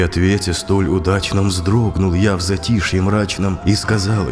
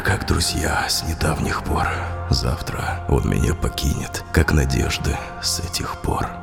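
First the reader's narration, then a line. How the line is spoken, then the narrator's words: Sighing whisper. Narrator (Russian): шептал я вдруг, вздохнувши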